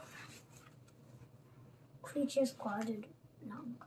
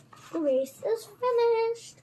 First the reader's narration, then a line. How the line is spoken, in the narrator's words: The dodo called out